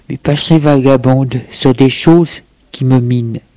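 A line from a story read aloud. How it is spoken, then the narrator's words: Sighing. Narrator (French): Il soupire et lui dit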